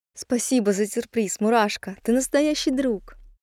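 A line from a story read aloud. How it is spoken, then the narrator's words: Joyful after tears. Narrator (Russian): Кисуля вытерла слезы и радостно сказала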